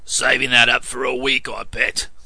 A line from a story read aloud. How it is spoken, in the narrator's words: growled Piggott